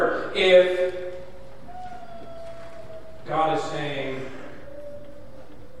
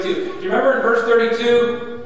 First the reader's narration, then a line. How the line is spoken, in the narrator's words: They said mockingly